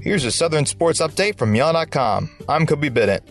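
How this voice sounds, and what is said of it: Southern American accent. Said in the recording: “Southern accent.”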